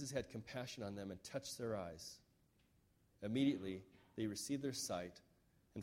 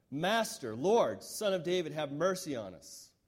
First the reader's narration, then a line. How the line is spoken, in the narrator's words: they shouted all the louder